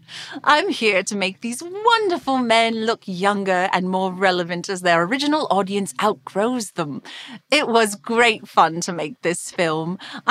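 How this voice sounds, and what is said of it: Posh English accent. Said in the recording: “I have this posh accent”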